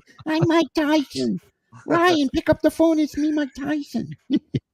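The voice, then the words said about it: Imitates another person's voice. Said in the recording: “that's my Michael Scott doing a Mike Tyson impersonation”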